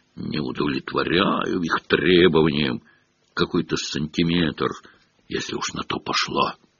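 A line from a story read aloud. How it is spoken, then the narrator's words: Ghost muttering to himself. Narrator (Russian): Почти безголовый Ник, привидение башни Гриффиндор, бормотал себе под нос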